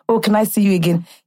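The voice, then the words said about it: Exaggerated deep Nigerian accent. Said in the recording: “In my most deep Nigerian accent”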